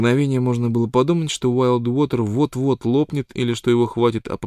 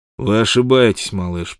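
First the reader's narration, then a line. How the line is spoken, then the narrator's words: Cold. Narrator (Russian): произнес он холодно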